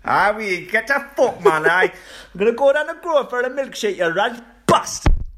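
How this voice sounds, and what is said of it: Put-on Geordie accent. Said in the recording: “Geordie accent gets better. Starts off a bit Jamaican.”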